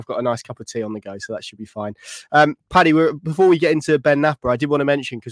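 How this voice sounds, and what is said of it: Sniffly, congested voice from cold. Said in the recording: “I've got a little bit of a cold ... I might be a bit sniffly and sound a bit different than usual”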